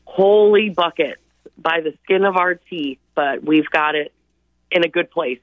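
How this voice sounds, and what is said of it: Worn, strained voice. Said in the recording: “You can probably hear it in my voice. I have been talking nonstop for what seems like 24 hours.”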